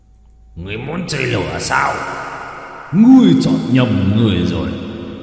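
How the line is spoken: Roaring. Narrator (Vietnamese): Dao long gầm lên

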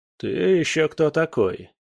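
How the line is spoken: Gloomy question. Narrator (Russian): поинтересовался тот мрачно

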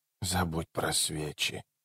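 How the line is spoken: Child's muffled strange mutter. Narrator (Russian): пробормотала девочка глухим, странным голосом

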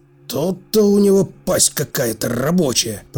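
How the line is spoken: Mutter. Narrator (Russian): пробормотал

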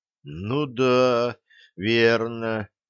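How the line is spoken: Drawn out. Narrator (Russian): протянул Лешка

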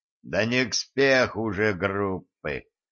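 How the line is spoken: Groaning over the phone. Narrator (Russian): простонал в трубку отец Никодим

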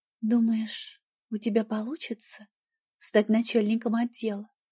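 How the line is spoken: Young woman's quiet question. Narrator (Russian): тихо спросила девушка

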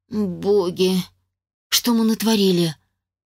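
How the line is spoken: Exhaled words. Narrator (Russian): выдохнула я

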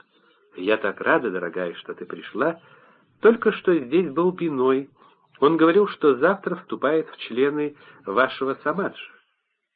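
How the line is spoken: Soft, gentle. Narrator (Russian): Чтобы помочь ей начать разговор, Анонда Мой мягко сказала

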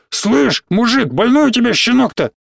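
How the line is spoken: Hoarse wheeze. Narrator (Russian): засипел

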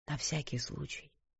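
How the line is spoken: Whisper. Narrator (Russian): прошептал он

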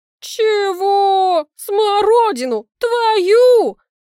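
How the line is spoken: Neighbor laughing too loudly. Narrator (Russian): Хохочет соседка чересчур громко

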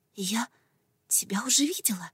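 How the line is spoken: Whisper. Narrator (Russian): прошептала я

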